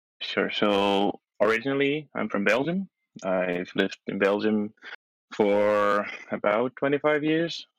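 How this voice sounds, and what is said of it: Slight foreign accent. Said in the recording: “I hear a little bit of an accent.”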